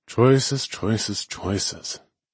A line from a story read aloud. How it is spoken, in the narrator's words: I mumbled